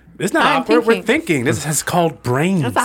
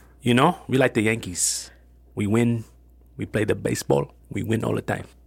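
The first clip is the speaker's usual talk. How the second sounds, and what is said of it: Put-on Dominican accent. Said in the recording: “Is that your Dominican accent? ... It was pretty good.”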